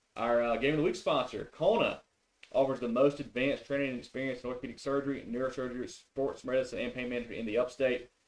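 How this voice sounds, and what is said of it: Very fast, clean, clear reading. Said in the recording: “I read that really fast. ... It was very clean. ... Very clean and clear.”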